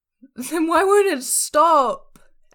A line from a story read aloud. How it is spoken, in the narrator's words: Esther wails